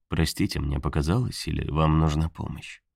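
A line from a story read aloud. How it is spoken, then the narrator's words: Soft question. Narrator (Russian): Снова мягко спросил тот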